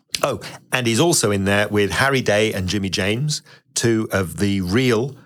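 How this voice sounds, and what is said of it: Usual voice. Nothing is said of it.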